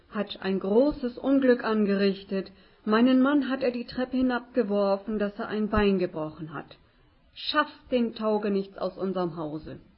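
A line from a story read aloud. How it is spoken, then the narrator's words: Shouted. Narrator (German): rief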